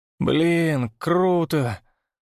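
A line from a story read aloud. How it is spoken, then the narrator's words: Drawn out, swallowing hard. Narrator (Russian): протянул Степа, сглатывая слюну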